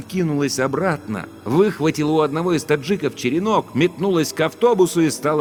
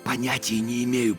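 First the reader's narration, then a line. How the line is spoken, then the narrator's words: Whisper. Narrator (Russian): прошептал я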